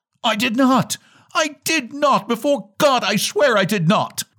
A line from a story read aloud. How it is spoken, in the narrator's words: cried wretched